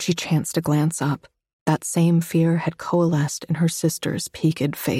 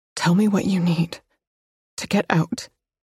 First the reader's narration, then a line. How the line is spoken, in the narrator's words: Her voice broke as she murmured